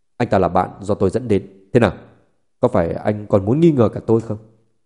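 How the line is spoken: Cold angry. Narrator (Vietnamese): Sắc mặt Tô San lạnh lùng, tức giận nói

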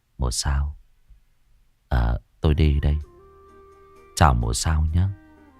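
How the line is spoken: Soft mumble. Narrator (Vietnamese): khẽ lẩm bẩm

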